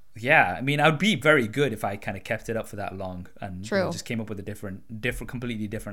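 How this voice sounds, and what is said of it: British accent. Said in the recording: “because I sound like this, because I've been born and brought up in the UK”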